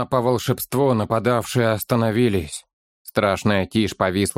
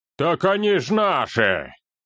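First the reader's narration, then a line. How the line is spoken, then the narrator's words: Astonished booming bass. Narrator (Russian): Изумленно прогудел в тишине чей-то гулкий бас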